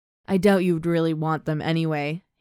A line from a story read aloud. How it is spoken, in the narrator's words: he chuckles